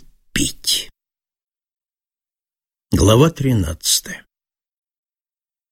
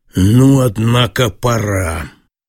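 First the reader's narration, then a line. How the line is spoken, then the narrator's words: Businesslike, almost bored tone. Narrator (Russian): промолвил каким-то деловым, почти скучливым тоном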